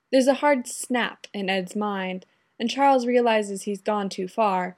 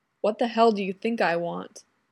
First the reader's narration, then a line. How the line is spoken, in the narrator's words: Ed growls, all the discomfort and fear gone